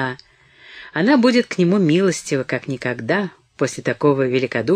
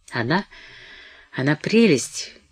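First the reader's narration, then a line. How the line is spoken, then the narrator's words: Incoherent muttering. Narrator (Russian): бормотал он бессвязно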